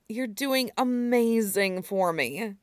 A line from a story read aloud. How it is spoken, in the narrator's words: he murmured, sounding awed